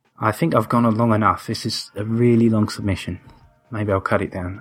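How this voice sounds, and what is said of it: Speaks with a noticeable accent. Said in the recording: “Does have a nice accent. ... Yes, very nice accent.”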